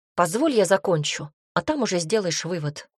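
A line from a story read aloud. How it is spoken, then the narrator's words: Somewhat sharp request. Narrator (Russian): немного резко попросил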